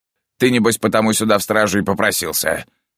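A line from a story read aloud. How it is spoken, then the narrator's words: Snorting remark. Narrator (Russian): Хмыкнул второй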